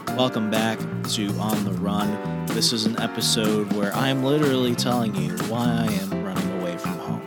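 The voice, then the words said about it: Quieter than usual voice. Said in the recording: “my voice is a bit quieter in this episode”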